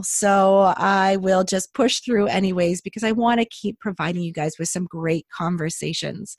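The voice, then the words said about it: Voice not quite normal, slightly hoarse. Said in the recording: “you can probably tell my voice isn't quite back to normal”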